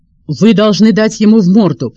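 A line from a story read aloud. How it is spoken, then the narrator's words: Commanding tone. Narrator (Russian): приказным тоном сказала она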